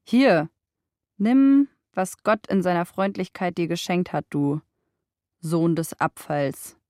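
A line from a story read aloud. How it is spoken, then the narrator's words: Mocking. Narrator (German): spottete sie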